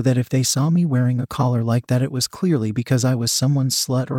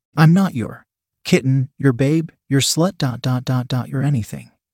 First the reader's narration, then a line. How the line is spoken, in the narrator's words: Kate protested sternly, but somewhat calmly, trying to avoid agitating him